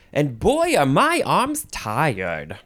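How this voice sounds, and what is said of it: Weird joking voice. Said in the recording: “That was a weird voice.”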